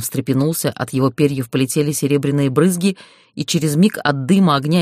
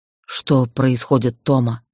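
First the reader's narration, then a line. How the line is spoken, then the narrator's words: Hoarse question, father. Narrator (Russian): хрипло спросил отец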